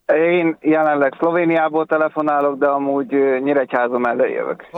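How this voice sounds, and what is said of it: Slight regional accent. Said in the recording (Hungarian): “Ismerős hát, a akcentusod. ... Hát, valami kis akcentus.”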